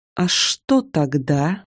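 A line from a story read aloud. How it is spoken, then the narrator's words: Hissing. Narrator (Russian): зашипела я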